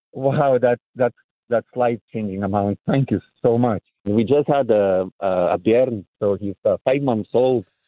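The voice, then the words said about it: Scottish accent. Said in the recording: “the Scottish words versus the accent here”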